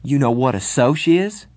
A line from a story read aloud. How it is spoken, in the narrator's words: said, my voice shaking with rage